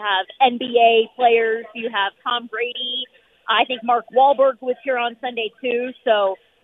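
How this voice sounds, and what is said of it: Hoarse, strained voice. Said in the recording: “I'm already losing my voice ... I'm losing my voice because, that's the week we've had here in Vegas.”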